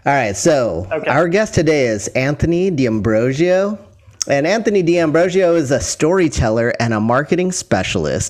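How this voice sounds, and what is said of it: Announcer-style radio voice. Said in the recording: “I'm going to read this bio in my probably best radio voice.”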